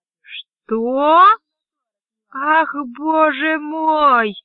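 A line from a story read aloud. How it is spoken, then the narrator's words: Irritated groan. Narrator (Russian): раздраженно простонала Корлис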